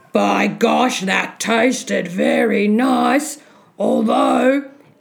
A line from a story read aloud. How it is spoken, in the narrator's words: He heard the giant mutter twice